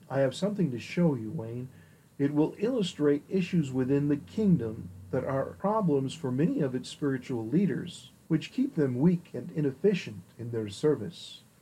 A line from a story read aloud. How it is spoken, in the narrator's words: the Holy Spirit whispered